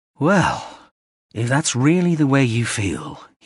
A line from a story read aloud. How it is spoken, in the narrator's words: he sighed